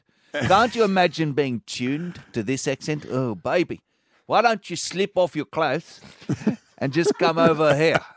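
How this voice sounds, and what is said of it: Put-on South African Transvaal accent. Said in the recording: “this accent? It's so romantic ... My accent was from the Transvaal.”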